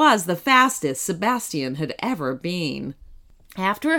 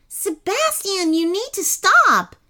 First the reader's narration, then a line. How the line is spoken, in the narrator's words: shouted Kenny at the top of his voice